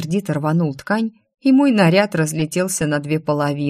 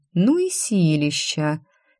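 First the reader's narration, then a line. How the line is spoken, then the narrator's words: Sad sigh. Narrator (Russian): Я только вздохнула, с грустью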